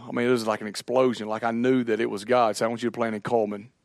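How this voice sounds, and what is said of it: Country accent. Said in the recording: “whenever they hear my accent ... more country than I am”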